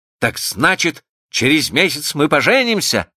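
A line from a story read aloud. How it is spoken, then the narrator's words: Joyful question. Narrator (Russian): радостно спросил он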